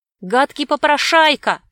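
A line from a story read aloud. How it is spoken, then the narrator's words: Boys shouting. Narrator (Russian): кричали мальчишки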